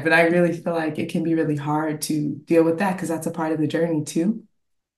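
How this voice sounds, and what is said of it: Teary, emotional voice. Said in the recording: “I don't know why I'm getting teary-eyed”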